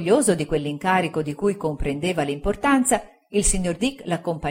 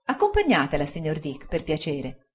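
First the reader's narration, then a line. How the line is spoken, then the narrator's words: Plain. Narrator (Italian): disse Traddles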